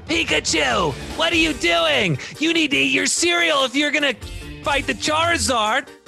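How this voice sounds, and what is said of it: Cartoon hero character voice. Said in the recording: “Can I do my Ash Ketchum voice?”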